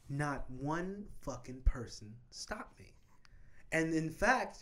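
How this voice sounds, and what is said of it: Usual voice. Nothing is said of it.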